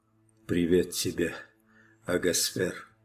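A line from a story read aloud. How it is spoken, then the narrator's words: Barely audible whisper. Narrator (Russian): чуть слышно прошептали его окровавленные губы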